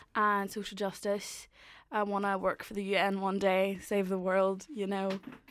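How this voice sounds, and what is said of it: Derry Irish accent. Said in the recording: “I'm from Derry ... my accent's a little strange”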